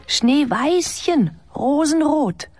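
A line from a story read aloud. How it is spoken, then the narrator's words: Called out. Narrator (German): rief sie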